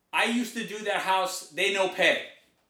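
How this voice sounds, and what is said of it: Put-on Asian accent, broken English. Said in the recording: “this is his accent ... I'm not making fun of Asian people. This was his accent.”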